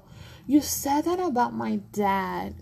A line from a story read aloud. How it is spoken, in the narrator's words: Calissa laughs